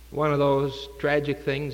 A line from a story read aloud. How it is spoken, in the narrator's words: said